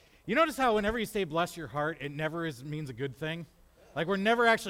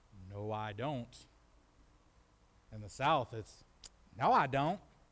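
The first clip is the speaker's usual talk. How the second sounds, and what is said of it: Put-on Southern accent. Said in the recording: “See, I can do Southern accent a little bit.”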